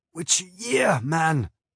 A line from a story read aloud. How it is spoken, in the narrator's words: I croaked